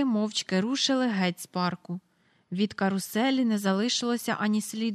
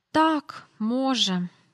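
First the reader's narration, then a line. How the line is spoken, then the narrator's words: Said with a soft sigh. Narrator (Ukrainian): сказав Майкл, тихенько зітхнувши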